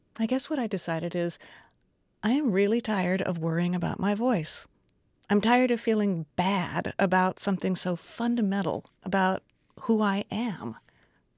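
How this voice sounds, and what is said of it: Creaky vocal fry, occasional cracks. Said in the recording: “I have vocal fry. My voice creaks. It cracks sometimes.”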